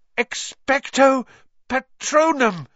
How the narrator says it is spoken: he gasped

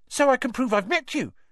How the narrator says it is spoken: said Colin Creevy eagerly

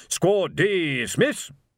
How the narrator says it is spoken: he shouted

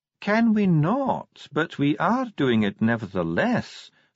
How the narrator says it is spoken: said Ardent calmly

